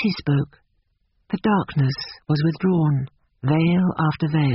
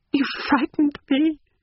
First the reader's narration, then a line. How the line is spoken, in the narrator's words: she moaned